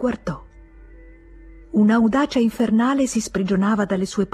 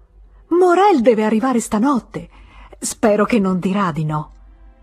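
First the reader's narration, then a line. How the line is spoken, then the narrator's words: Frightened exclamation. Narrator (Italian): ebbe una gran paura esclamando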